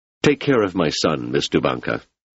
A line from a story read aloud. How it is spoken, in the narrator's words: said Selden